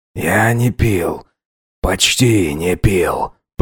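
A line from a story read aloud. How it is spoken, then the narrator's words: Mumbled. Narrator (Russian): пробормотал Эльбрус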